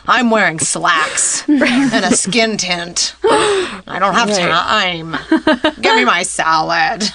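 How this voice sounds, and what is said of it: Impression of no-nonsense magazine editor. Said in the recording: “That's my impression of a no nonsense magazine editor. ... Impressions aren't born overnight. Like, you need to work on them.”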